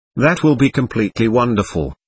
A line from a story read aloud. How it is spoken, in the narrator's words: Manal replied